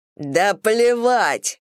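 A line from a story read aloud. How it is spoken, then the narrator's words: Barked. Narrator (Russian): рявкнул Брэд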